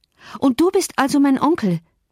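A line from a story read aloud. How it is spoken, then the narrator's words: Calling out. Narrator (German): rief sie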